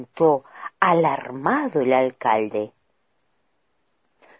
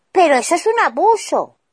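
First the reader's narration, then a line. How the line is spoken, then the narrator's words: Mayor shouting. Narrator (Spanish): gritó el alcalde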